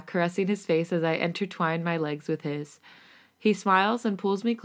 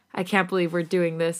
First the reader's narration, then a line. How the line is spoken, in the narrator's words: I giggle nervously into his chest